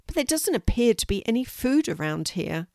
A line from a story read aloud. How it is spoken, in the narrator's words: he said sadly